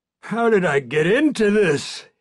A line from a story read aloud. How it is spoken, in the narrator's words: He moans